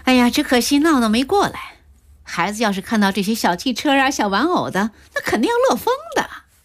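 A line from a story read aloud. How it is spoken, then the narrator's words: Laughing. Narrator (Chinese): 安文笑道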